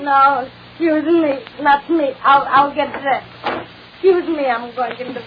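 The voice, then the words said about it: Bronx New York accent. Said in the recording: “your accent's familiar... My accent, that's the Bronx, New York.”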